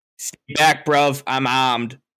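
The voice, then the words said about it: Put-on Boston accent. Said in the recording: “What is that accent? Why are you from Boston? No, that's a that's a Boston accent, dude. ... That's my Sauce Erickson accent.”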